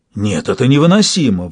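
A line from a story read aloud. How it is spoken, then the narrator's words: Sudden exclamation. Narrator (Russian): вдруг воскликнул Сатрап Казгу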